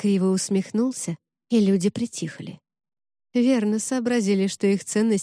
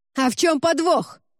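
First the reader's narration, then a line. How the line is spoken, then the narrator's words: Shout from the back. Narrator (Russian): выкрикнул кто-то из задних рядов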